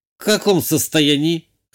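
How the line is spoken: Skeptical snort. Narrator (Russian): хмыкнула девушка

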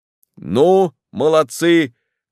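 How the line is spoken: Shouting. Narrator (Russian): крикнул Лаулес

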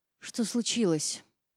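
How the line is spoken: Hoarse, anxious voice. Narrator (Russian): Волнение передалось и мне, голос стал хриплым

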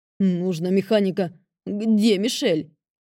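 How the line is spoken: Barked. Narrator (Russian): рявкнул ББ

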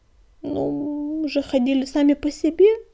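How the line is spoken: Mumbled. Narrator (Russian): промямлил клубок

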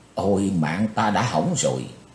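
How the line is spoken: Soft murmur. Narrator (Vietnamese): Chí Tôn khẽ thầm

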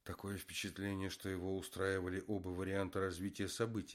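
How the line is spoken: Plain. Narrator (Russian): сказал Руслан

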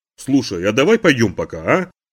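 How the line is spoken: Brisk, cheerful suggestion. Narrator (Russian): бодро предложил

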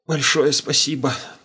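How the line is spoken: Hoarse. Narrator (Russian): прохрипел я

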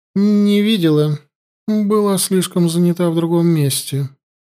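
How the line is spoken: Thin little voice. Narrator (Russian): тонким голоском ответила Янди

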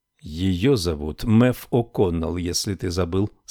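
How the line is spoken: Plain. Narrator (Russian): сказал Гарри

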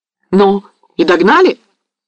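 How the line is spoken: Several voices exclaiming. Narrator (Russian): вскрикнуло невольно несколько голосов

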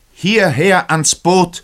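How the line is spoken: Captain shouting. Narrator (German): schrie der Kapitän

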